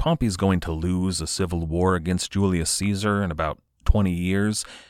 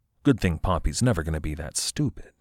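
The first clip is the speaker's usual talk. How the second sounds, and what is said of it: Sarcastic tone. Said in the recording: “my sarcastic tone of voice”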